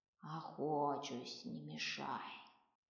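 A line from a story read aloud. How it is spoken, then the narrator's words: Grumbling reply. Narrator (Russian): проворчал тот в ответ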